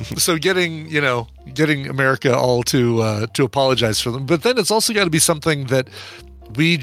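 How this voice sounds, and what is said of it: Usual voice. Nothing is said of it.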